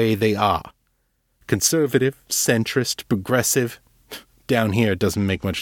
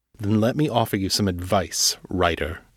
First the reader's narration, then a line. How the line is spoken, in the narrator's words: Silas said gravely